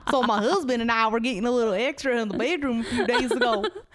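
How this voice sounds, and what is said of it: Weird put-on accent. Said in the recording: “put on a weird accent when I'm reading these uncomfortable like submissions ... putting on a weird accent”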